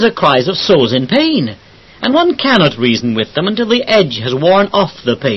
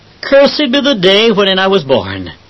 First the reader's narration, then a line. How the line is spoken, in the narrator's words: Jeremiah cried